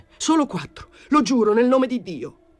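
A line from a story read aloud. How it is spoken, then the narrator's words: Shouted. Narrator (Italian): Gio gridò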